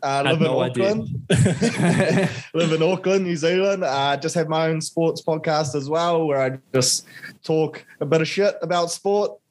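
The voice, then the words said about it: New Zealand accent. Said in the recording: “I'm a Kiwi boy, as you can probably tell from the accent.”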